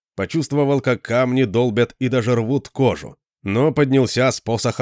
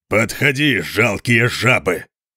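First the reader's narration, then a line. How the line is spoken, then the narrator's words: Thunderous roar. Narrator (Russian): прорычал он не менее громко, чем горный обвал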